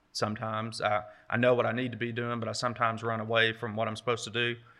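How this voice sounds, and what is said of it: Country-sounding accent. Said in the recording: “you all think I sound like a country bumpkin ... they thought I was a cowboy or something”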